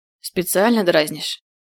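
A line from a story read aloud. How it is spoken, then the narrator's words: Hoarse smoker's voice. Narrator (Russian): проговорил хрипло, будто целый день только и занимался тем, что курил сигареты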